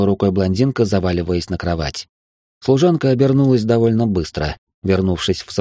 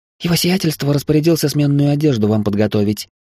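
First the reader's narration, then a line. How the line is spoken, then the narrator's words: Squeaky servant's voice. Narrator (Russian): пискнула служанка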